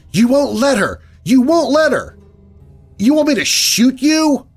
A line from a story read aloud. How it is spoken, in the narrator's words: I yell angrily